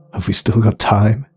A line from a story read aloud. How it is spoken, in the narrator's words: He croaked